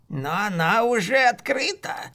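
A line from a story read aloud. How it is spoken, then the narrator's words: Tense hoarse voice. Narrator (Russian): сказал маг напряженным и сиплым голосом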